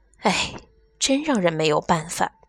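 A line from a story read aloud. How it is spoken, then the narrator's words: Young woman, sighing. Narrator (Chinese): 年轻漂亮的女老师叹了一口气，接着说道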